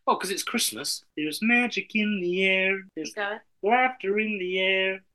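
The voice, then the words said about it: Kermit the Frog character voice. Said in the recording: “I can do a Kermit impression”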